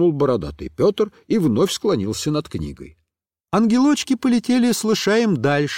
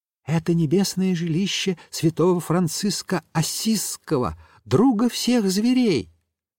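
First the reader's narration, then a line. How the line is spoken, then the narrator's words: Little angel whispering in ear. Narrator (Russian): зашептал на ухо лышаю один из ангелочков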